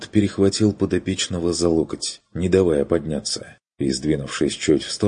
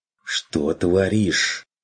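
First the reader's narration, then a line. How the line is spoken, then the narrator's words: Hissed. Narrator (Russian): Прошипел Ланс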